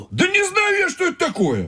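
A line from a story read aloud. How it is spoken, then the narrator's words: Shouting. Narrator (Russian): закричал Тимоха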